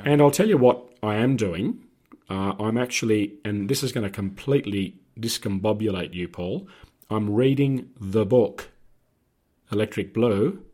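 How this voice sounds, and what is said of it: Hoarse, lost voice. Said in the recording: “lost my voice and sounded the way I do now”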